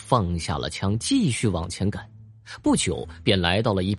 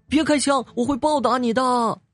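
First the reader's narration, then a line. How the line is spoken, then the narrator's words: Sudden crow cry. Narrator (Chinese): 乌鸦突然叫道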